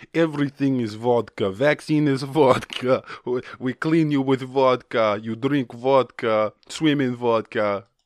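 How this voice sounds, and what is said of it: Put-on Russian accent. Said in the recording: “Sorry, I got carried away with the accent there.”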